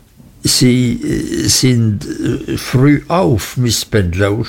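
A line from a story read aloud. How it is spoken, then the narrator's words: Stammering. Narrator (German): stotterte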